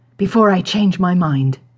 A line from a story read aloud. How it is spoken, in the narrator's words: the Beast growled louder